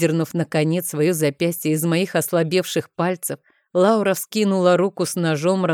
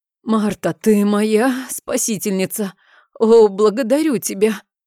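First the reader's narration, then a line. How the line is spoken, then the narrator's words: Hoarse, barely audible rasp. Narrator (Russian): прохрипела я едва слышно, потирая горящее горло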